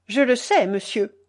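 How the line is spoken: Curt reply. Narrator (French): répondit sèchement mon mari

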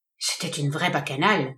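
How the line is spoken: Murmured. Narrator (French): murmura le médecin

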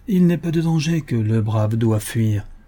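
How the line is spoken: Calm reply. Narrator (French): répondit Bill Cody d'un ton calme

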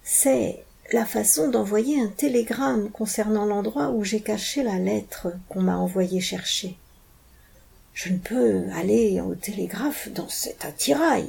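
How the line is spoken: Murmuring. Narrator (French): murmura E23

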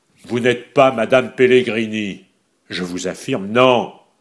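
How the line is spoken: Loud, repeated. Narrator (French): répéta le baron Godefroy d'une voix forte

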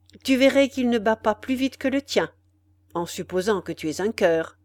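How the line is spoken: Young man, cold. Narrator (French): dit froidement le jeune homme

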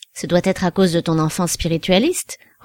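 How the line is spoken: Playful remark. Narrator (French): remarqua Tibère d'un ton badin

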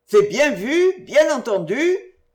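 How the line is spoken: Auctioneer shouting. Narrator (French): criait le commissaire-priseur

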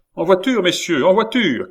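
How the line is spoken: Officer shouting. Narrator (French): cria le major de la maison du roi commandant l'escorte

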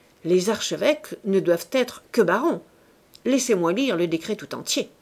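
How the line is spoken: Curt. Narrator (French): dit sèchement le ministre de la Justice

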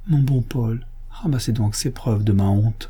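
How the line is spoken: Pleading. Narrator (French): me dit, d'une voix suppliante

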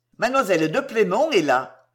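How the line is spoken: Curt reply. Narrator (French): répondit sèchement Sébron

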